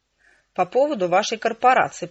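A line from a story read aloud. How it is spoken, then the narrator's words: Growl. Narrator (Russian): прорычала я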